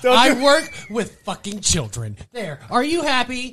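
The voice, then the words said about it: Imitates another person's voice. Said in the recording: “do your CM Punk impression ... That was terrible ... I did a CM Punk impression ... That was creepy”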